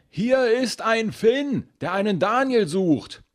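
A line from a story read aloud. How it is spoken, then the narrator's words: Woman bellowing across carriage. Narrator (German): Die Frau brüllt quer durch den Wagen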